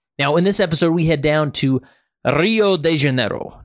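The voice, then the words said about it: Bad attempted Portuguese accent. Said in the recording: “that's probably a horrible Portuguese accent”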